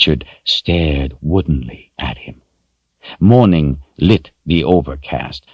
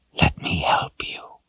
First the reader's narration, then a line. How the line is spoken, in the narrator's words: his father whispered